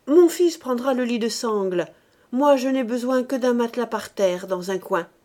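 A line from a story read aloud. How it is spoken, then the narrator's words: Curt, slightly hoarse voice. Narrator (French): Elle dit d'une voix brève, au timbre un peu rauque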